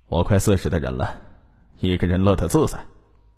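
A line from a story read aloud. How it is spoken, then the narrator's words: Sighing. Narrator (Chinese): 陈小明不由得叹息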